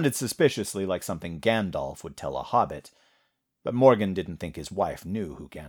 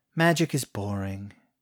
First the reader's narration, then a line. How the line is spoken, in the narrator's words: sighed